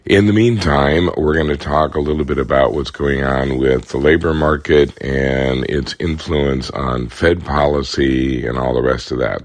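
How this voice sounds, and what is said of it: Hoarse, froggy voice. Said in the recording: “I apologize for my froggy voice. This is not my normal dulcet tones ... my voice has decided to abandon me today, so I sound like a frog at the bottom of a barrel”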